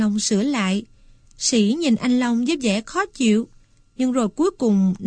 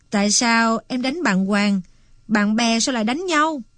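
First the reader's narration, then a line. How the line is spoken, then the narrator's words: Smiling question. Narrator (Vietnamese): Anh Long mỉm cười hỏi tiếp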